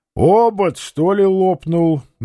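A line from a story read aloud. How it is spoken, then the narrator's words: Mocking singsong bass. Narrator (Russian): насмешливо спросил он певучим басом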